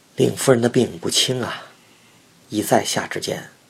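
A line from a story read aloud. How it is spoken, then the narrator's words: Sighing, low voice. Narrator (Chinese): 名医叹了一口气，小声地说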